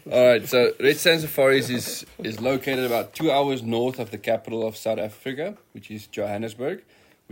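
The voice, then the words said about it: South African accent. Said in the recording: “That's a South African accent ... You Americans talk inside of your mouth.”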